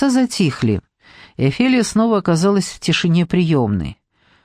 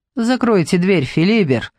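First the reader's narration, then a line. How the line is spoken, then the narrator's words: Suddenly calmer. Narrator (Russian): прибавил неожиданно более спокойным тоном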